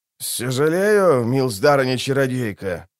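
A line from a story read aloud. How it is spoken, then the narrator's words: Through gritted teeth. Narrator (Russian): процедил Синишаль Гутлов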